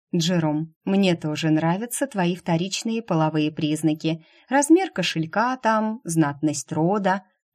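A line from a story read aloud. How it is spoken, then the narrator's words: Purred. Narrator (Russian): промурлыкала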